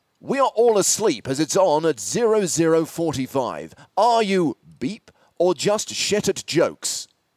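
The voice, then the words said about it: Dramatic voiceover voice. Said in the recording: “put on my best voiceover voice”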